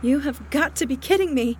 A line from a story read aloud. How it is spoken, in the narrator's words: Maggie cried out